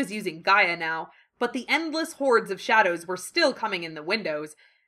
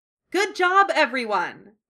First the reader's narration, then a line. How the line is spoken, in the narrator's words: Nanako shouted